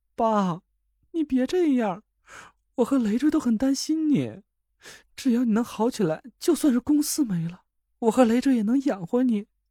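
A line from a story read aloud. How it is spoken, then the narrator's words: Crying. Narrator (Chinese): 田慧文哭了起来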